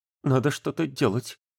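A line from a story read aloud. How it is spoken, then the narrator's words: Trembling mutter. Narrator (Russian): дрожащим голосом пробормотал Славка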